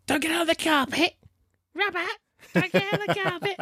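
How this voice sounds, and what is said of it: Imitates another person's voice. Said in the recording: “that's a really good impression of my mum... That's not a bad impression at all”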